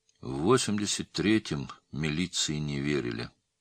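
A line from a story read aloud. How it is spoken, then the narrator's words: Gloomy. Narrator (Russian): мрачно сказал Цапов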